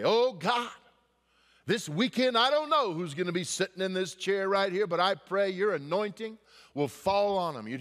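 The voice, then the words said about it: Loud Southern-accented praying voice. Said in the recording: “He had this southern accent, and he prayed loud.”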